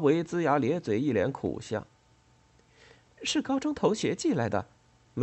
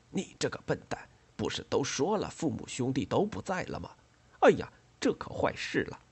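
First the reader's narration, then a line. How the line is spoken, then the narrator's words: Quiet scolding. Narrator (Chinese): 严老 小声教训他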